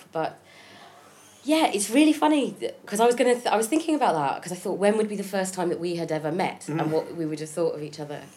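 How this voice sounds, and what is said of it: Congested voice with a cold. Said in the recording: “I have a bit of a cold, so that's why my voice is going to be slightly annoying ... I like people when they've got colds, their voices ... I may have a bit of a hacking cough”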